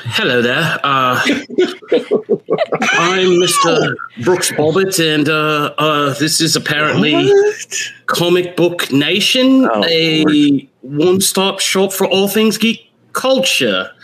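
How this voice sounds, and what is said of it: Put-on accent. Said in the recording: “That's an accent.”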